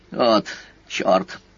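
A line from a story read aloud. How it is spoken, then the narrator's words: Embarrassed forced-out words. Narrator (Russian): Наконец смущенно выдавил из себя седовласый Дако Райми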